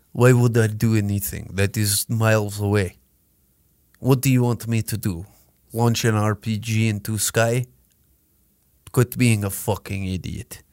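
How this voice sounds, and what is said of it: Poor put-on Russian accent. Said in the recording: “That's a horrible Russian accent.”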